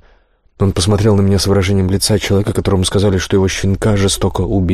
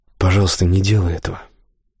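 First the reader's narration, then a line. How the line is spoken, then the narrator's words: Casual, barely audible. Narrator (Russian): с совершенно непринужденным видом, он еле слышно сказал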